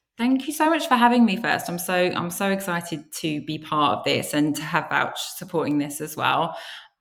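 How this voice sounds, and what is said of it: British accent. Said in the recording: “obviously I sound British”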